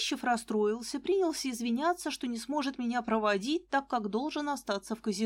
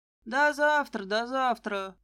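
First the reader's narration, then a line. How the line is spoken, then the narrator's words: Muttered under breath. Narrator (Russian): буркнул себе под нос очкарик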